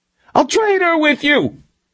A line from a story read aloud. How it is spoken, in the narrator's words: Milosevic screamed through the door